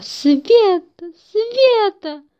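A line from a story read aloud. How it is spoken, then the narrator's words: Shouting on waking. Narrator (Russian): он проснулся и закричал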